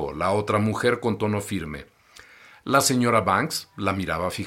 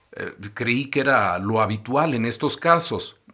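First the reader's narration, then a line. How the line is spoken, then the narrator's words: Plain. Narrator (Spanish): dijo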